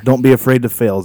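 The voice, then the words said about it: Imitated accent with Irish tinge. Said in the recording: “Just try to do Arnold as you do the quote ... A little bit of Irish mixed in with that ... a failure of a Schwarzenegger accent ... I thought it was a fine Schwarzenegger accent.”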